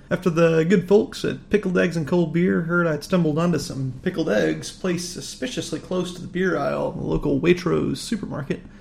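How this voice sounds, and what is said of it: American accent. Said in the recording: “As you can probably tell by my accent, I'm not exactly a local here, rather an expat to the UK from the States.”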